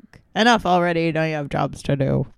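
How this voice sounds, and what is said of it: Gruff character voice impression. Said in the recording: “that's a great impression ... I've been working on my Colonel Thai”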